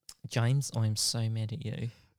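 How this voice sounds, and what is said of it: Put-on New Zealand accent. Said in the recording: “Do her accent. ... You have to change all the vowels for New Zealand.”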